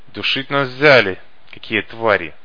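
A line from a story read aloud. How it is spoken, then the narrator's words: Words through clenched teeth. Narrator (Russian): процедил кто-то сквозь зубы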